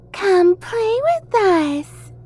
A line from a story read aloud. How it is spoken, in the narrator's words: Matilda said in a high, childlike voice